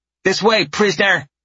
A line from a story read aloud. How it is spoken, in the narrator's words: the tiny one barks